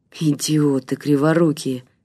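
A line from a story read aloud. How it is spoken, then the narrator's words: Mutter. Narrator (Russian): пробормотал Игорь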